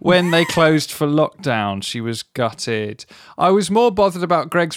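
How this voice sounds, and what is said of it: Usual voice. Nothing is said of it.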